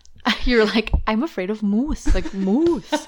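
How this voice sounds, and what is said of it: Attempted exaggerated Canadian accent. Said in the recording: “That was a interesting accent ... I wasn't quite Canadian at that point ... But you were close to something.”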